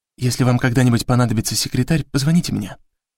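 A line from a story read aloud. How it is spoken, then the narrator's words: Discreet whisper. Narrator (Russian): шепнула одна из них, стараясь, чтобы Леви ее не услышал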